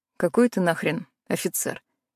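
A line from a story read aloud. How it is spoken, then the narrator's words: Scoffing. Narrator (Russian): хмыкнул Тони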